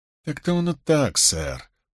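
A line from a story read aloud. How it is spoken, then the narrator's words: Uncertain. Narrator (Russian): промолвил он неуверенно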